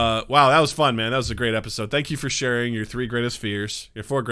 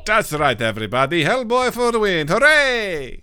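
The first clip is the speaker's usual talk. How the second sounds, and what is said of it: Put-on Irish accent. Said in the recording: “That was my Irish accent. ... Spotless. Just beautifully spotless.”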